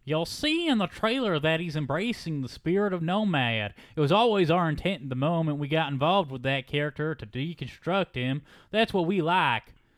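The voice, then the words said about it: Twangy country-sounding put-on voice. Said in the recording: “I'm trying to do like a nerd voice, but it's like a country voice now ... it kind of automatically does come off as twangy”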